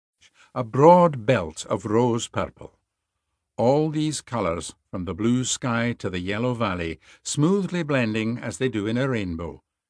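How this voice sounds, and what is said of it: Scottish lilt and brogue. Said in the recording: “Scottish himself, and he reads the prose with such a wonderful Scottish lilt and brogue”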